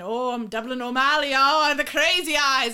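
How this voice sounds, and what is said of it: Exaggerated put-on Irish accent. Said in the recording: “He's doing like a weird Irish accent”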